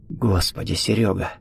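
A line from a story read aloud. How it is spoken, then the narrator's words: Chilled, horrified whisper. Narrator (Russian): похолодев, прошептал Виктор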